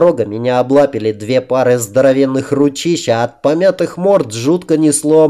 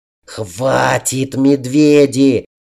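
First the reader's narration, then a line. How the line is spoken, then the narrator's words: Hoarse, choked squeak. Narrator (Russian): сипло, придушенным голосом пропищал я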